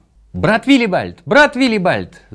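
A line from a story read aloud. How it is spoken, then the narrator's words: Shouting. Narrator (Russian): закричал он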